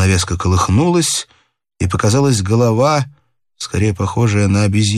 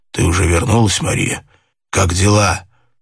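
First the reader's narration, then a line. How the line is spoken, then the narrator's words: Hoarse, anxious question. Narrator (Russian): Хриплым, беспокойным голосом он спросил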